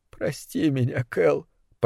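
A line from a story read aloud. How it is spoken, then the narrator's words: Tearful mumble. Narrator (Russian): пробормотал Брэндон сквозь слезы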